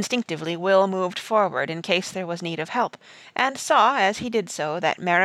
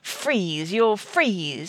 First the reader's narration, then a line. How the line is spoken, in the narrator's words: he spat out at him